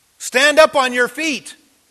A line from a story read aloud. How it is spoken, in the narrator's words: Paul ... called out in a loud voice